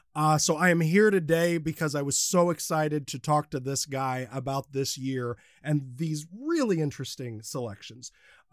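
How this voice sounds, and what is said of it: Congested voice from a cold. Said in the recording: “I have a bit of a cold, a little bit of a cough, I'm a little under the weather”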